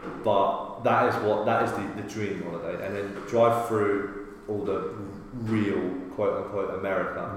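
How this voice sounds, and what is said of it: British accent. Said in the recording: “my accent ... they love the fucking British”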